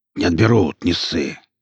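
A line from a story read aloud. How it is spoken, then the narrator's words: Grumble. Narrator (Russian): проворчал двойник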